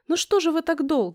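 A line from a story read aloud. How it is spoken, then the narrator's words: Exclaimed. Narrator (Russian): воскликнула Ксюша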